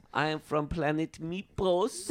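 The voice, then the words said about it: Put-on alien accent. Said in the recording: “enacts my accent ... I like that accent ... get my the accent out”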